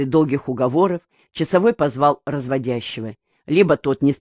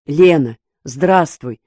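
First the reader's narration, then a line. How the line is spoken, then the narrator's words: Joyful. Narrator (Russian): радостно сказал он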